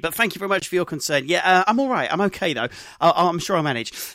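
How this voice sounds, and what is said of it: Hoarse, strained voice. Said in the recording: “are you feeling a little bit ill this morning? ... I have the sorest of throats. ... losing my voice”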